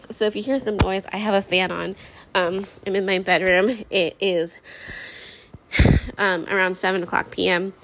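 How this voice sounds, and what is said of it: Tired, low-energy voice. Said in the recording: “I'm completely exhausted. Like, I'm talking like my body is tired.”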